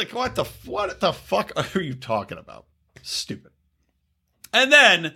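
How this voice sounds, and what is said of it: Usual voice. Nothing is said of it.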